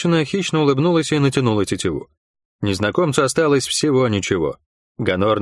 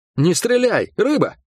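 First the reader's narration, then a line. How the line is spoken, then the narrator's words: Barked shout. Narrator (Russian): гаркнул он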